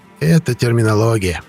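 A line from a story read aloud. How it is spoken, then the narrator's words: Soothing coo. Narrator (Russian): успокаивающе проворковал Шлюн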